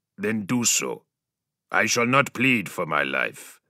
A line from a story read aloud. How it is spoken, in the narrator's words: the space marine growled